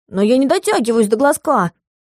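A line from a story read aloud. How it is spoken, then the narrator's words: Offended retort. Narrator (Russian): обиженно парировал Сёмка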